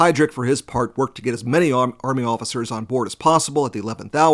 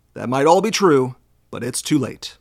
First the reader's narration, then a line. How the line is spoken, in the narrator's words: coldly replied